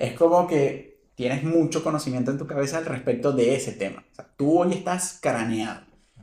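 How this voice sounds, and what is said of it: Usual voice. Nothing is said of it.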